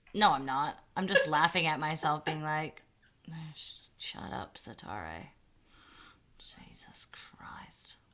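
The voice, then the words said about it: Australian accent slipping through. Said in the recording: “if I triggered the Aussie accent, I really got in there deep”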